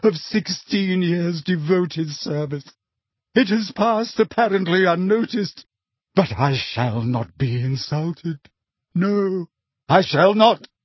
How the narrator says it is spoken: she choked

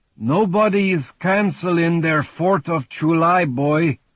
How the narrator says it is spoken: he said in his heavy Slavic accent

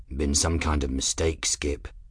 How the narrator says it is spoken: Journeyman muttered

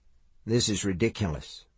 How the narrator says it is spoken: Mike murmured

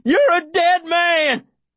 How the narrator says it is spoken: Davy shouts

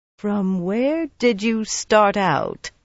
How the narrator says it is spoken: Siain asked slowly

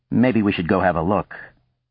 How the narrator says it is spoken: quickly he added

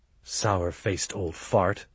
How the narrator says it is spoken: Stancil muttered

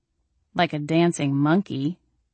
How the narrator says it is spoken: I muttered

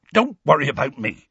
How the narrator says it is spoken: he said hastily

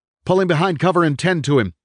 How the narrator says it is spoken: Cleasby shouted at Private Langston

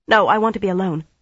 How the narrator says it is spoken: she said hastily

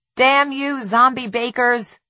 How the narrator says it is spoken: Tess yelled

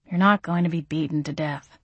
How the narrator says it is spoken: Gabriel said in a bemused, soothing tone

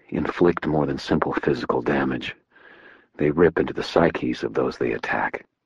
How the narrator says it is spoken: I told him quietly

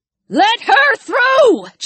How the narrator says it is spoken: Jess shouted

